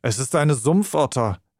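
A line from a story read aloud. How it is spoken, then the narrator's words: Exclaimed. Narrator (German): rief Holmes aus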